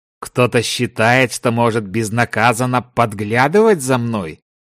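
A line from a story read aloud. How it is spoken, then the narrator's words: Menacing question. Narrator (Russian): грозно спросил Дзяндао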